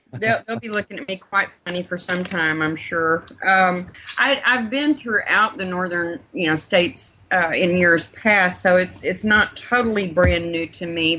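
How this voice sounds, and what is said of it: Texas drawl. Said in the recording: “you still have a Texas drawl? ... I'll keep my Texas drawl”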